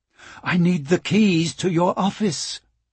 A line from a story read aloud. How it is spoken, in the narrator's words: Michael said, nervously